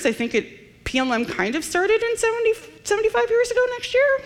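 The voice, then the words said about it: Voice rising higher in pitch. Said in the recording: “my voice is going higher and higher ... my voice gets higher when I'm not sure what I'm doing”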